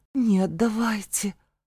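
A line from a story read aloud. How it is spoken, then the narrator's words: Gasping, pleading babble. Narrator (Russian): Судорожно выдохнув, пролепетала я, взмолилась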